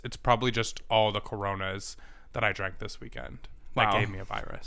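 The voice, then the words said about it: Sick voice with vocal fry. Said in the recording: “still getting over this weird, like, faggot sickness... We love a vocal fry.”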